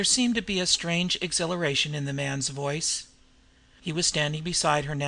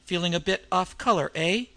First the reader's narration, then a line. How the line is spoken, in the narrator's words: he said with a short laugh